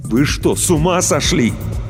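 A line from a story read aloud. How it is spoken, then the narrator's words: Barely restrained shout. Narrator (Russian): Иван с трудом сдерживался, чтобы не закричать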